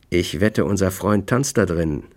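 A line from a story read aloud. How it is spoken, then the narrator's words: Plain. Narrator (German): sagte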